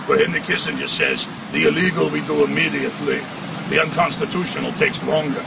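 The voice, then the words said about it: Kissinger impression, Schwarzenegger-like accent. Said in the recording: “It's more of a Schwarzenegger-type accent”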